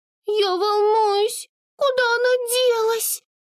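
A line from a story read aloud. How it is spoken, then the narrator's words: Anxious squeak. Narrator (Russian): встревоженно пропищала Амур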